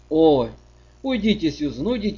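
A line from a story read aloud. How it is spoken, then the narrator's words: Desperate exclamation. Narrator (Russian): в отчаянии воскликнула Аня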